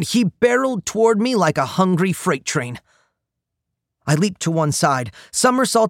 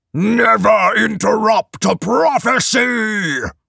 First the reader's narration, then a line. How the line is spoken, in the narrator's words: He roared